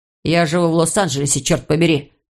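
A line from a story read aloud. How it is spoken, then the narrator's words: Irritable snap. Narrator (Russian): огрызнулся Иван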